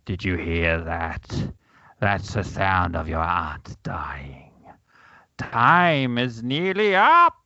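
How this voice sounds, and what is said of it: Evil villain voice. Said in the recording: “I'll do this in an evil voice.”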